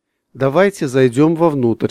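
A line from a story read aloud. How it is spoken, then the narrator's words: Plain. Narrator (Russian): сказал Игорь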